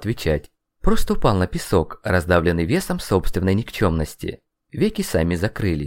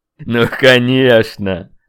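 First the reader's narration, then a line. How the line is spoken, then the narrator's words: Laughing. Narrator (Russian): Засмеялся черный наездник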